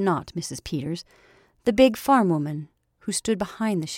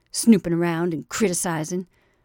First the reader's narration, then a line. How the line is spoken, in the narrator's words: she said testily